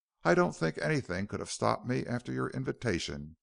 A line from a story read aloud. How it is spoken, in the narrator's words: he returned quickly